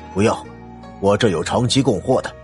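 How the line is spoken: Impatient and cold. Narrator (Chinese): 老板不耐烦的冷声说道

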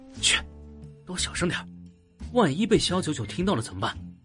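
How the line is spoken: Low warning. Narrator (Chinese): 有人低声的警示

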